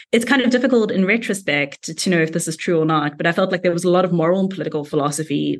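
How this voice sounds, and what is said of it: South African accent. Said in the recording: “I'm South African, as you might have got from the accent”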